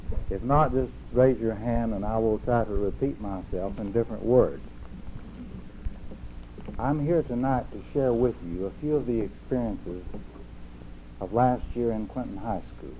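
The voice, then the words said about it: Speaker's own regional accent. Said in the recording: “I hope that you people are going to be able to understand my accent.”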